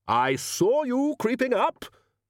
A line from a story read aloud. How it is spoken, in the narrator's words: roared the Arch-Chancellor